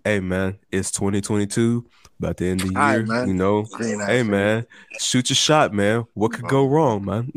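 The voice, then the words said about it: Imitates another person's voice. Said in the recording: “my Josh impersonation”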